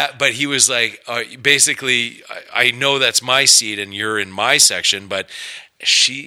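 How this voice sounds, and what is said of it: Usual voice. Nothing is said of it.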